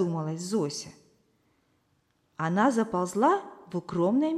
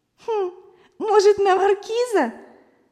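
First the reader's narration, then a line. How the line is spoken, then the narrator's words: Bursting out laughing. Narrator (Russian): Зося даже расхохоталась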